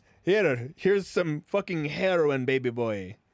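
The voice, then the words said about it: Weird put-on character accent. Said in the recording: “a fucking weird accent”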